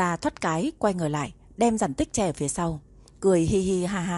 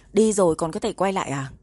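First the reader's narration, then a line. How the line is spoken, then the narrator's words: Cold, tall man. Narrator (Vietnamese): Người đàn ông cao lớn lạnh lùng nói, nụ cười trên mặt hắn cũng dần tắt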